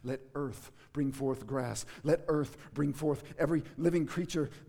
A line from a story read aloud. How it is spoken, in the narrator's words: the voice of God now cried out in Jesus Christ